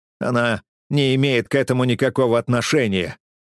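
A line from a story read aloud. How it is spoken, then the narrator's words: Growled. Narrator (Russian): прорычал он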